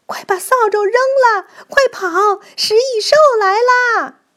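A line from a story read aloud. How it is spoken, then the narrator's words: Shouting from afar. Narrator (Chinese): 离着老远，就像在门口扫地的工蚁们喊道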